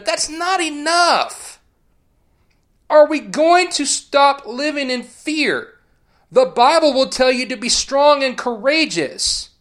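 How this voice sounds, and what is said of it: Raised voice, ranting. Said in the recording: “I'm sorry if I'm raising my voice ... this rant”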